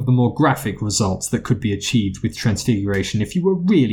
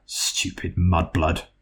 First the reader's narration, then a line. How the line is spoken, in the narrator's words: Several rows down, she heard Malfoy mutter